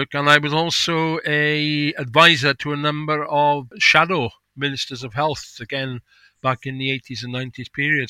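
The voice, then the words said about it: Welsh accent. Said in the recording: “I was born in Wales. I live in Wales. It's a giveaway straight away with my accent.”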